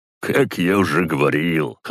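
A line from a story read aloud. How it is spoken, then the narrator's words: Chuckle. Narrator (Russian): хохотнул на это Гризли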